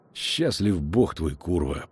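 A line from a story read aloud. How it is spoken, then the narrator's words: Spoken through teeth. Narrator (Russian): процедил ведьмак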